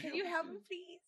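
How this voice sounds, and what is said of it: Childlike baby voice. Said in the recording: “Try to do like a baby voice. ... Me with a baby voice. ... Give me an example”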